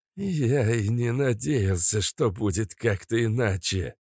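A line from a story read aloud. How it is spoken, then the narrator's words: Spoken through clenched teeth. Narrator (Russian): сквозь зубы процедил Большаков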